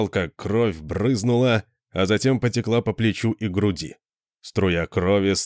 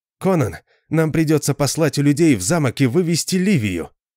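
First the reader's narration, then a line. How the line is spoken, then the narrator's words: Exclaimed. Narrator (Russian): воскликнул Арфас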